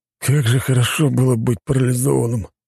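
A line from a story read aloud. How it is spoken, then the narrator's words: Sighing. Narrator (Russian): вздохнул цесаревич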